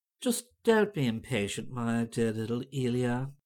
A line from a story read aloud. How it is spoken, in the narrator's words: Violet Wilde said in a crooning voice